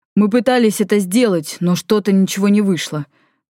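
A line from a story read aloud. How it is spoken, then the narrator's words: Groaning. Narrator (Russian): простонал Валифор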